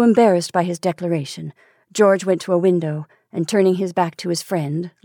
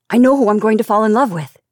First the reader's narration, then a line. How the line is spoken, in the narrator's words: he said sharply